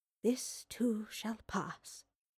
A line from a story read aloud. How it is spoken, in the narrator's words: she whispered to herself